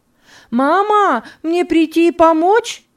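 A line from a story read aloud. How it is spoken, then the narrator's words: Shout from below. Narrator (Russian): крикнула снизу Лиза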